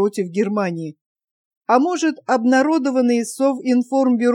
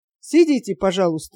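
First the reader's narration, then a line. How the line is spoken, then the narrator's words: Calm. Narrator (Russian): спокойно сказал Сталин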